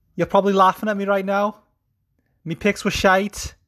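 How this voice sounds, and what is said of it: Put-on Scouse accent, poorly done. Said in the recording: “what accent would you like me to record my next episode in? And over half of you chose Scouse ... Me accent is shite.”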